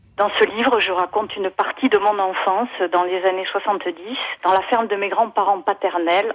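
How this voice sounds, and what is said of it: Slight southwestern French accent. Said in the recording (French): “vous allez l'entendre à son petit accent. En fait, elle a quitté son sud-ouest natal”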